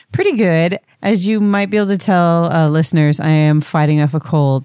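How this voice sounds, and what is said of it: Slightly stuffy, congested voice. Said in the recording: “I sound a little stuffy”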